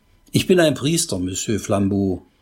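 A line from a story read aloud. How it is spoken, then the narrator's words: Plain. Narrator (German): sagte Pater Braun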